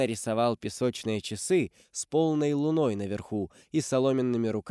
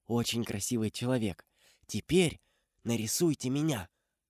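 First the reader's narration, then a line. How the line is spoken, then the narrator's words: Pleased whisper. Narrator (Russian): Она осталась довольна этим уродом и прошептала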